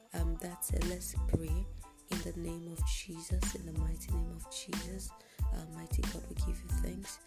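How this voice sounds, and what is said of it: Groggy, sleepy-sounding voice. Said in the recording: “I'm sorry for my voice. I'm just waking up.”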